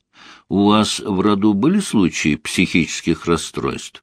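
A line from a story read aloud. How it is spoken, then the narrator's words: Gentle question. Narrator (Russian): мягко спросил Леонид Максимович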